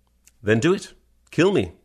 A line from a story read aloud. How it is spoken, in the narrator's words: Shinji said as calmly as possible